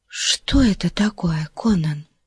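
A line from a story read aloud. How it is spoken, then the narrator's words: Hopeful whisper. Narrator (Russian): прошептала она, боясь спугнуть пробудившуюся надежду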